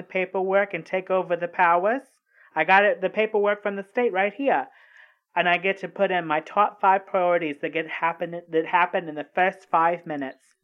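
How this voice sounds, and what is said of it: Hard-to-understand accent. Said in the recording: “your accent is a little confusing to me ... I cannot understand what you're saying”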